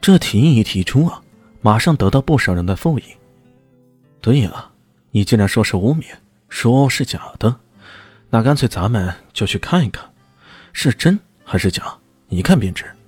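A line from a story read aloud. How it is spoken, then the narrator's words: Calm, flat. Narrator (Chinese): 李炫淡淡的说道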